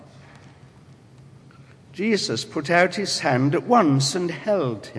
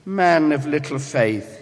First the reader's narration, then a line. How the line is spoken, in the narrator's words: he said